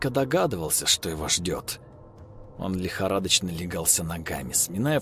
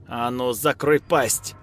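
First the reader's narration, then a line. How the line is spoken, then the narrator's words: Roared. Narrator (Russian): взревела тетка Люда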